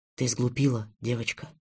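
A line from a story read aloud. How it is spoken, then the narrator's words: Whispered. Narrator (Russian): прошептал он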